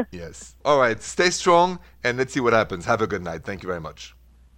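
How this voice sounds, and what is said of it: French accent. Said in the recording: “your beautiful accent ... French accent”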